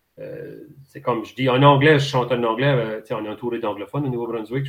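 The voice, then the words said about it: Acadian Chiac French accent. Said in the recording (French): “ton accent chiac ... notre accent, c'est notre accent. Moi, je chante à mon accent, c'est naturel pour moi”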